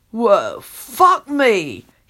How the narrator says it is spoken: he says in an impressed voice

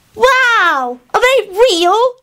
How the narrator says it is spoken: he shouted

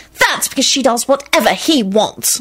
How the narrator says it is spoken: Solange snapped irritably

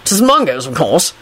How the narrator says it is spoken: Kingsley replied impatiently

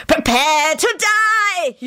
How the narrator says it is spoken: He screamed dramatically

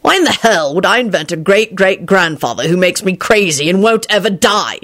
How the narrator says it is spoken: he shouted

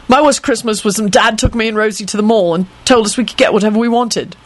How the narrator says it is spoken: Jamie blurted out

